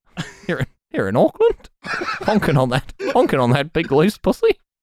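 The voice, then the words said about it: Weak put-on New Zealand accent. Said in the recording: “it's not a very good New Zealand accent.”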